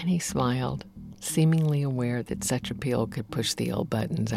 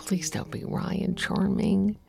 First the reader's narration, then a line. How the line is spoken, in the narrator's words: I murmured